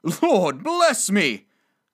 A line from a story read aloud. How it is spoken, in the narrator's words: cried the gentleman, as if his breath were taken away